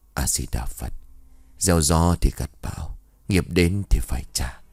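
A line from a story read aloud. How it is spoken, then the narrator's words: Muttered. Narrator (Vietnamese): Thầy Hòa miệng lẩm bẩm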